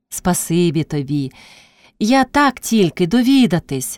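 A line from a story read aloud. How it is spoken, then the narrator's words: Sighing reply. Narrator (Ukrainian): зітхнувши, одказала Пріська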